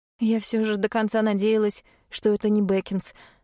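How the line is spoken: Sigh. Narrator (Russian): вздохнула я

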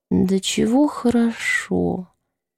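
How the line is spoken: Relaxed, peaceful whisper. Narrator (Russian): Элизабет медленно, умиротворенно улыбнулась и расслабленно шепнула

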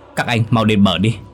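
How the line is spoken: Loud shout. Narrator (Vietnamese): Đức hét lớn

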